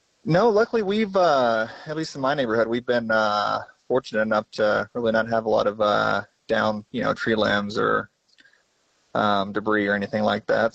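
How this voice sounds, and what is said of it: American accent. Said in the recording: “I am detecting an American accent.”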